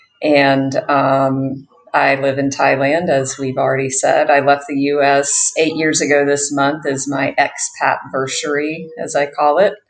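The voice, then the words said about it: American accent. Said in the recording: “I am an American, if you can't hear that from my accent.”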